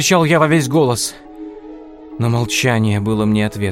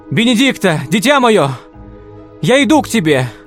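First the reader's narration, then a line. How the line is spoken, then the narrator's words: Shout. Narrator (Russian): закричал я снова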